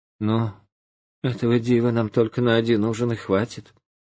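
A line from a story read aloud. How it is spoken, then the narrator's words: Sighing speech. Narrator (Russian): вздохнула и говорит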